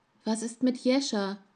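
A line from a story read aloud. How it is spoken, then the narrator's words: Frightened trembling child's voice. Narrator (German): fragte der Junge in Koanims Arm mit ängstlich zitternder Stimme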